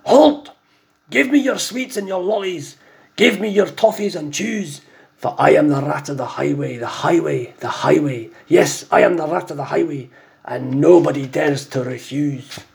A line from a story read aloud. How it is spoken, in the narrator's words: the Highway Rat, who bellowed a deafening